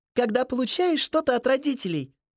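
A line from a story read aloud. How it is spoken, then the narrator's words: Joyful. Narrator (Russian): Ева радостно произнесла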